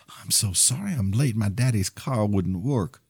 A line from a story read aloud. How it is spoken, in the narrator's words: Nearly out of breath, in the quietest voice, the girl said